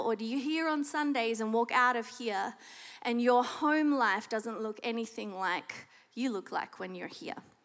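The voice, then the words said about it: Australian accent. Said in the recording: “The accent should give it away if you don't know it already. I am Australian.”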